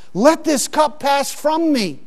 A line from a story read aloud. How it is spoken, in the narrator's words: He prayed, with loud shouting and tears and crying to the Father